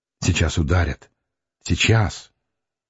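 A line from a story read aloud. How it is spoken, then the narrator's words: Stammering undertone. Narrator (Russian): Митрофанов сказал в полголоса, заикаясь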